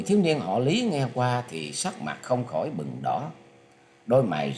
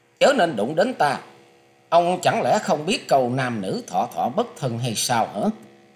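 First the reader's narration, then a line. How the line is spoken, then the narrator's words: Loud scolding woman. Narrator (Vietnamese): cô gái ấy lại nạt to lên rằng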